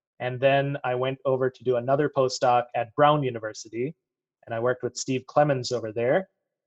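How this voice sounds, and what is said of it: American accent. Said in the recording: “I have an American accent ... you do ... So my American accent comes from the fact that I lived in Michigan”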